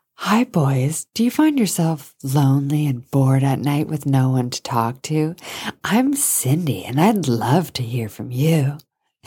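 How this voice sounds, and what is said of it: 1-900 hotline operator voice. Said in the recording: “that's just the sound of my one nine hundred number voice... I'll impersonate it”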